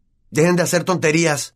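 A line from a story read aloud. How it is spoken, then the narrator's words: Shouted. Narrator (Spanish): gritó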